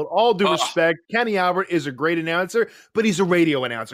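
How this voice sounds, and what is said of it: Usual voice. Nothing is said of it.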